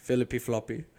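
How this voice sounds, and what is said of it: Slight put-on French accent. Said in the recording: “Bit of accent.”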